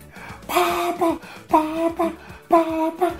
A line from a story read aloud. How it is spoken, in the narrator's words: she shouted